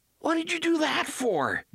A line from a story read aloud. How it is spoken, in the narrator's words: Jake cried, hurt and outraged